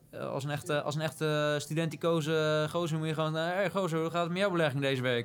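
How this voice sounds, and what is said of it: Rotterdam accent. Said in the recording (Dutch): “Zegt deze ehm, Rotterdammer. Met, met accent en al. ... met accent en al.”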